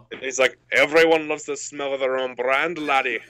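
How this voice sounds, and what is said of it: Scottish accent, Fat Bastard impression. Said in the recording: “whenever I try to do a Scottish accent, I just do fat bastard from Austin Powers”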